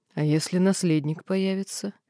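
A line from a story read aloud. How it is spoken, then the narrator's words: Completely calm. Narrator (Russian): Этот вопрос был задан совершенно спокойно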